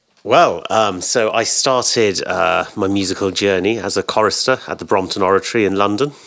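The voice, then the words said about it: British accent. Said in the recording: “I hear the British accent”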